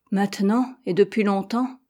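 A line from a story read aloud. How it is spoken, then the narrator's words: Sighing. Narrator (French): poursuivit-elle avec un soupir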